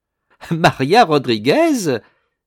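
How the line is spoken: Women crying out, laughing. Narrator (French): s'écrièrent toutes les dames en riant

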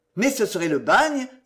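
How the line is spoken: Exclaimed. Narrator (French): s'écria M

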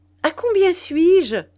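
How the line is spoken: Asked laughing. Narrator (French): demanda-t-elle en riant

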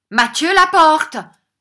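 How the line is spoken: Shouted. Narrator (French): cria M

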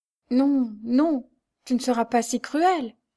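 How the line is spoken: Stammering, bursting into tears. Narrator (French): balbutia la pauvre femme en fondant en larmes

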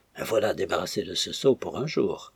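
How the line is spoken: Low voice. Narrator (French): dit Cénabre à voix basse

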